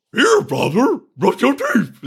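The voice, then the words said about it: Silly put-on character voice. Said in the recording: “You don't want me to give her a dog voice?”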